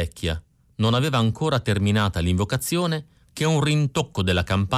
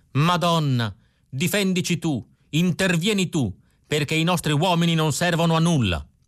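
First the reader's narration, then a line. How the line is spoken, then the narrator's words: Old woman shouting again. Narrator (Italian): La vecchia Maria Rosa aveva ripreso a gridare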